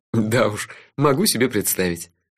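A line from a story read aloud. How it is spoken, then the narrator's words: Relieved laugh. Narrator (Russian): с облегчением рассмеялся я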